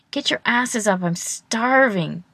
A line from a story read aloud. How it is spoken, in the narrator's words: he whines